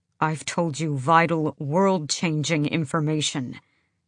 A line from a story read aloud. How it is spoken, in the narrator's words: Kaol said through his teeth